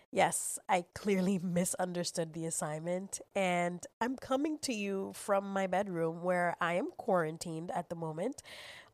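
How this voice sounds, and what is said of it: Very deep sick-sounding voice. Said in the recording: “my lovely Barry White tone of voice ... I happen to have COVID”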